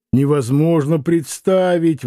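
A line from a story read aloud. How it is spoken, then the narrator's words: Laughing exclamation. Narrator (Russian): воскликнул Митрофанов, смеясь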